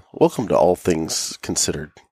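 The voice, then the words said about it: NPR radio announcer voice. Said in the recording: “doing my NPR voice”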